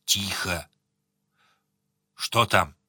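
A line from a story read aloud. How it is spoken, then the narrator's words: Hissed through teeth. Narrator (Russian): Сварог прошипел сквозь зубы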